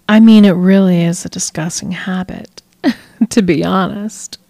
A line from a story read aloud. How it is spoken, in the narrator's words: she chuckled